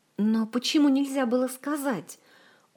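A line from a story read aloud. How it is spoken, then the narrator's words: Agitated. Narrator (Russian): взволнованно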